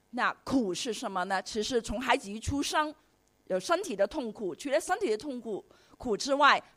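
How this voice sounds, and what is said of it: Heavy Cantonese-accented Mandarin. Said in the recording (Chinese): “我的口音非常重的广东腔调”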